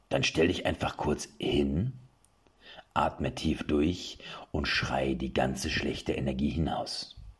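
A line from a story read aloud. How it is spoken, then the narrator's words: Instructor's sonorous voice. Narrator (German): hob der Ausbilder mit so sonorer Stimme an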